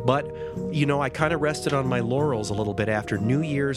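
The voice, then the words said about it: Nasal, congested voice. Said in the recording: “I don't know if you can tell by my voice, I'm a little nasally. I have a terrible cold right now”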